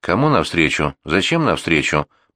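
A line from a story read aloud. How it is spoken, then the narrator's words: Muttered. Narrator (Russian): пробормотал он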